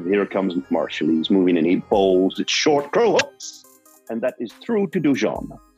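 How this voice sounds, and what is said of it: Put-on West Indian accent. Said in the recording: “excuse my West Indian accent”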